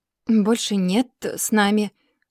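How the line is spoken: Forced out. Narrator (Russian): наконец выдавил он

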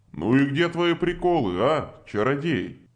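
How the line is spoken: Chuckling. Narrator (Russian): хохотнул Кравос

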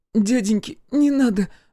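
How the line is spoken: Frightened babbling. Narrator (Russian): залепетала она

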